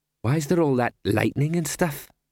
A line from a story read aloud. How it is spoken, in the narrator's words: said Buddy